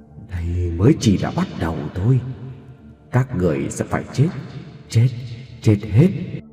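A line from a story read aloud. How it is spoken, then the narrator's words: Voice carried on howling wind. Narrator (Vietnamese): tiếng Diệu nói trong gió rít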